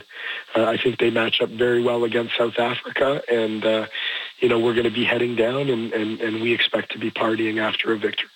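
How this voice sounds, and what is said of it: Hoarse voice. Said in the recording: “After a red eye and a hoarse voice”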